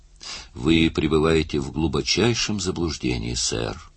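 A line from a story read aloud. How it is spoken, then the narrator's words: Calm, dignified speech. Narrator (Russian): спокойно и с достоинством произнес Флайн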